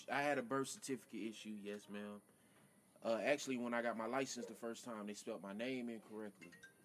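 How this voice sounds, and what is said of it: Slow, careful drunken speech. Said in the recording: “why are you talking like a motherfucking... You better talk like a normal human... That's why he talking slow like that... I'm drunk”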